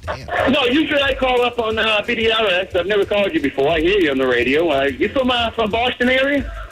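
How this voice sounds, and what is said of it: Boston accent. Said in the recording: “I detect by your accent that you might be, too.”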